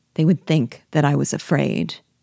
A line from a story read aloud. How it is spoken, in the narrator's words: Pierrot replied coldly